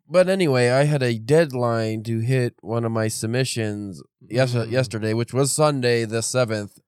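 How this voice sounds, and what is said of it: Congested, stuffed-up voice. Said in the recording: “I don't know if my voice sounds funky, but I feel shitty a little bit still. But I'm all stuffed up”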